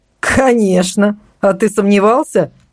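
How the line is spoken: Nervous laugh. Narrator (Russian): нервно рассмеялся Зимний

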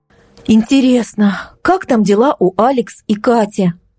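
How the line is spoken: Sighing. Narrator (Russian): вздохнула Марго в очередной раз

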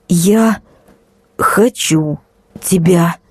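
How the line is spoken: Flat strained emotionless voice. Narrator (Russian): выдавила я безэмоционально и не узнала собственный голос

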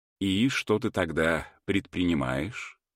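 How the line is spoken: Gentle question. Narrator (Russian): мягко спросил он

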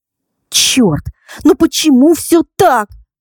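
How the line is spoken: Excited exclamation. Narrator (Russian): воскликнула вслух, раззадоренная разговором и просмотром светской хроники

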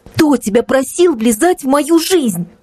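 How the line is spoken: Tearful outburst. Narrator (Russian): выкрикнула дочь наконец сквозь слезы

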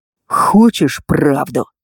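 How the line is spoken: Hissed through clenched teeth. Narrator (Russian): прошипел он сквозь зубы

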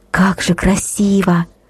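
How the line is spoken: Entranced whisper. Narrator (Russian): прошептала Катя, завороженно

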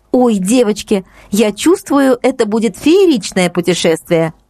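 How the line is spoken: Excited exclamation. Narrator (Russian): воскликнула Катя

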